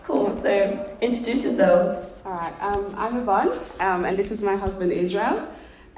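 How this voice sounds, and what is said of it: Australian accent. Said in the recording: “you can't tell by the accent, we're from Australia”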